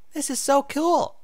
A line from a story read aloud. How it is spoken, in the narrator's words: Sweetie Belle squeaked